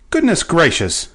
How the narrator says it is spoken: cried Betsy

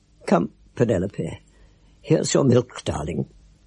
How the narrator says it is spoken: with her voice a little broken with crying, said

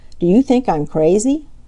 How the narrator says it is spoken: Skimmer chuckled

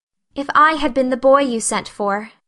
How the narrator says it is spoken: said Anne wistfully

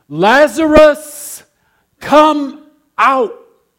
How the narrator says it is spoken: in a loud voice, shouted

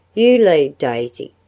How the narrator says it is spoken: she said

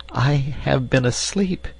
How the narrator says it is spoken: she faltered, looking very much ashamed

